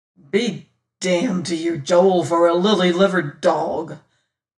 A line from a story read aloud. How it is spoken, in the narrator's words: growled a great bony fellow